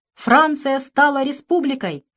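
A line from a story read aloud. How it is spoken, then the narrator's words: Loud booming shout. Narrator (Russian): кто-то зычно крикнул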